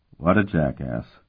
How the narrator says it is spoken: the corporal muttered to his companions

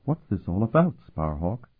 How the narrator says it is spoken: she whispered

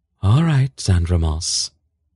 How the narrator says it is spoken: she said in a resigned tone

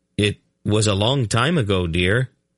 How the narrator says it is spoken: he said quickly

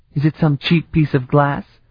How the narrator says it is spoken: He sighed

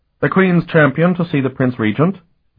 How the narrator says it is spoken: the functionary said to them, his voice shrill

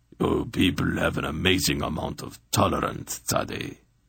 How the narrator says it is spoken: he said in his harshly accented voice

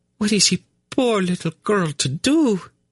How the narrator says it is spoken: she asked in a trembling voice

